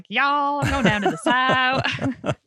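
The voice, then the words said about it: Put-on Southern American accent. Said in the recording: “That's the only one I think I can do justice for ... when we think of American accent”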